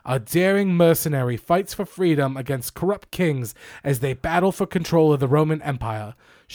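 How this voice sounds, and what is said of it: Poorly faked English accent. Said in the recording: “a stupid accent ... an English accent, which I am butchering and not doing ... To say it generously, approximating”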